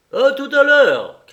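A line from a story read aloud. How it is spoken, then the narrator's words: Old man calling out. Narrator (French): cria le père Antoine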